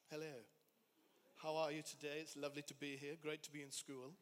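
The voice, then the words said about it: Posh London accent. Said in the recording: “I had a London accent from my mum on day one. So I turned up talking really posh.”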